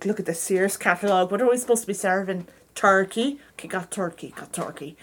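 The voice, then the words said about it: Put-on accent. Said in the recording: “let me do the right accent.”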